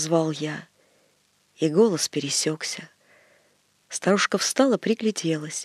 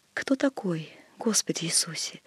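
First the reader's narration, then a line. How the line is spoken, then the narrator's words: Whisper. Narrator (Russian): шепот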